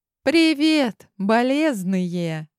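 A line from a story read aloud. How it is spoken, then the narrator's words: Joyful greeting. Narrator (Russian): радостно приветствовала нас она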